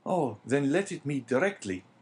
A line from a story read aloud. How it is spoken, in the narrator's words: exclaimed the young man